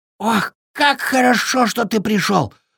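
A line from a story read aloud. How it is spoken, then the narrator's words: Breathless relief. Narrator (Russian): выдохнул бобер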